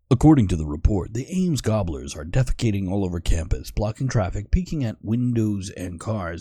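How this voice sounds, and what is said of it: Newscaster voice. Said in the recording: “try my newscast voice”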